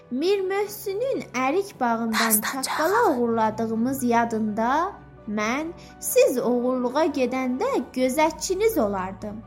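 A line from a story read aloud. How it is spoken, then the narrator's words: Laughing. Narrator (Azerbaijani): gülərək dedi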